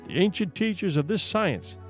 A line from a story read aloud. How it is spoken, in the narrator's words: said he